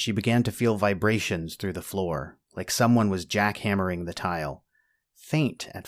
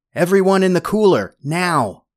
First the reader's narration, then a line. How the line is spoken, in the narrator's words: shouted